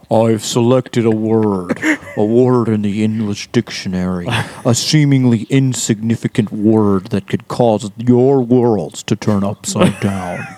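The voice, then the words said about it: Impression of a film character. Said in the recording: “Are you doing a Morpheus impression?”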